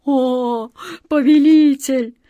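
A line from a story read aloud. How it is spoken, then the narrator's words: Pleading moan. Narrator (Russian): с мольбой простонал Джин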